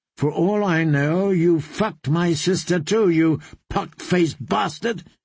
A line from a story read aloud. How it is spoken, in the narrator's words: spat out